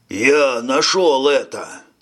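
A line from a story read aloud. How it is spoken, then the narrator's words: Distant booming voice. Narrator (Russian): прогудел откуда-то Финштейн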